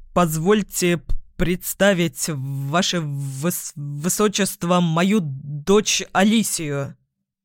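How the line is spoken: Stammering. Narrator (Russian): Заикаясь, произнес один из главных советников отца, Кепель

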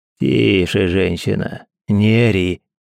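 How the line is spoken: Angry grumble near ear. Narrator (Russian): пробурчал над ухом незнакомый злой голос

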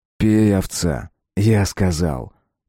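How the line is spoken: Almost gentle request. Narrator (Russian): почти ласково попросил Миша

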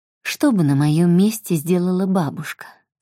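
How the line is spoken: Calm question. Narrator (Russian): спокойно спросила мама

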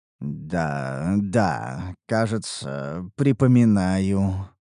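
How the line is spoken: Mutter. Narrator (Russian): пробормотал я

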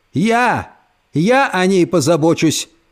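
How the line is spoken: Old woman shouting. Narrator (Russian): выкрикнула бабушка

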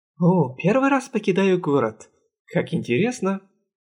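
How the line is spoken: Cheerful. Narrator (Russian): Весело сказал сидевший сзади Саварис

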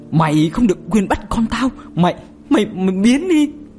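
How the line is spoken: Harsh, stern voice. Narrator (Vietnamese): Chị gằn giọng

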